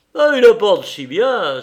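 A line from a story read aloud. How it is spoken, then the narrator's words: Exclaiming. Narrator (French): s'écria Cahusac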